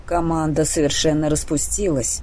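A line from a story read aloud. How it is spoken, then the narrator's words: Cold. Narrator (Russian): холодно высказался Нейл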